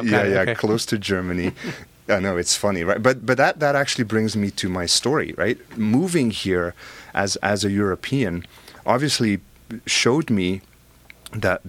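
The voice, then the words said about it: Belgian accent. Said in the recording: “I have an accent, right? I'm originally from Belgium ... From Europe.”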